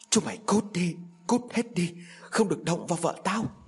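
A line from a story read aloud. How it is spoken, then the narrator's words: Frenzied loud hiss. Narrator (Vietnamese): Ông Tiệm điên loạn rít lớn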